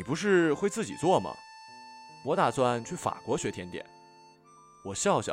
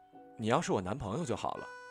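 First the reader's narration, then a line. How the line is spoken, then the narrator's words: Soft wistful sigh. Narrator (Chinese): 林夕轻声感叹道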